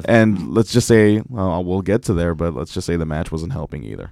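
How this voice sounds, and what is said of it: Voice lower than usual, strained. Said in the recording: “I'm kind of like an octave lower than I usually am today ... Because of yelling.”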